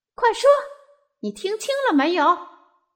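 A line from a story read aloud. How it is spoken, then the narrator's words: Shrill cry. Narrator (Chinese): 大跳蚤尖嗓子叫着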